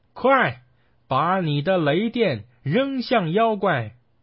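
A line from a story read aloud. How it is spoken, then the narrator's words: Shouting. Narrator (Chinese): 孙悟空对着雷神喊道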